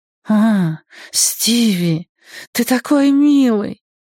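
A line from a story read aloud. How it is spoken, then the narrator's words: Sweet voice. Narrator (Russian): произнесла своим сладким голосом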